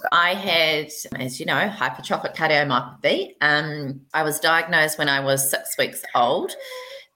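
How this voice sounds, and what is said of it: New Zealand accent. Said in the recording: “You live in New Zealand, which explains that super cool accent you have”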